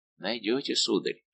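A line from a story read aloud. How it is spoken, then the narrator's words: Menacing whisper. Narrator (Russian): шепнул ему на ухо голос, дышавший угрозой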